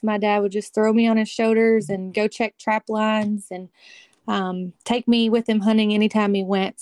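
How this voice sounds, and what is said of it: Kentucky Southern accent. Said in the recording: “I can tell from your accent, you're not a Northern girl. ... Nope, I'm from Kentucky.”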